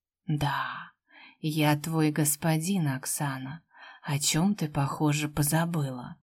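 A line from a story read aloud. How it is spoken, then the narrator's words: Tender but chilling whisper. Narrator (Russian): Прошептал ласковым шепотом, но у меня от него мурашки поползли по спине от ужаса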